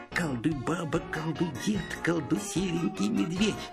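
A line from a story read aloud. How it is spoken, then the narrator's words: Muttering. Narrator (Russian): Шурик все бормочет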